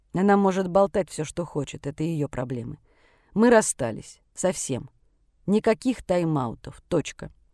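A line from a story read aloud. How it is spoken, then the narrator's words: Said coldly. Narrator (Russian): вслух холодно произнес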